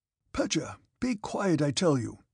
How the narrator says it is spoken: cried the Count

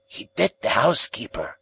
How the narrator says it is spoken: said he in a hoarse whisper

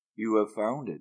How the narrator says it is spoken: Siddhartha said in a whisper

